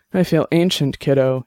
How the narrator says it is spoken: he said, sighing deeply

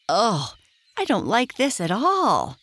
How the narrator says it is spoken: cried Tinkle

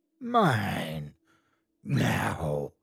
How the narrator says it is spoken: A voice rasped in my ear

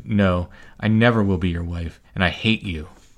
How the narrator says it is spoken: had recovered herself, and showed not an atom of fear, and her voice did not tremble, and she answered

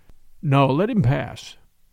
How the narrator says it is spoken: said Father Brown, with a strange, deep sigh that seemed to come from the depths of the universe

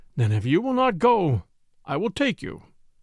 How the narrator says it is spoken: said Knut with a sigh

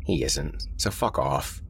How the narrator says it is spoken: Mark grunted

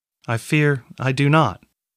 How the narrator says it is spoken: Catrin said

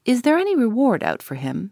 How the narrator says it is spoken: he asked eagerly

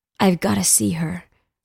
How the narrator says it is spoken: whispered

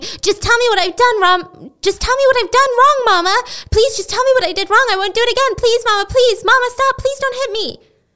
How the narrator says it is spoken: she kept screaming

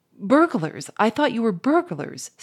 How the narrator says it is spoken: stammered Firmin

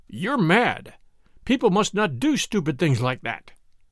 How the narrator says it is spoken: he said to her in a harsh voice

